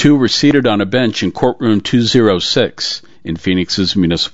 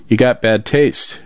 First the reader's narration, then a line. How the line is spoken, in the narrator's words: Alicia replied, chuckling